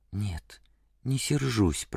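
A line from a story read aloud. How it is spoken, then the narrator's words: Whisper. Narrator (Russian): прошептала Кэт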